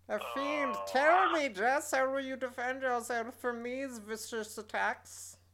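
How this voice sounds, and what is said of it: Evil supervillain character voice. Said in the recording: “in my evil supervillain voice”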